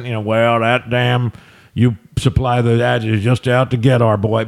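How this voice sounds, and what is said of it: Put-on redneck accent. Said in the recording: “I'm going to do my redneck accent”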